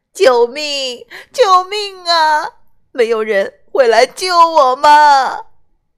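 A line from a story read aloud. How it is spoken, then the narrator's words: Wailing cry. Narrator (Chinese): 匹诺丘……开始嚎啕大哭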